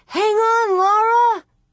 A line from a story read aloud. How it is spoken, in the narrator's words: Far off she heard Lena yell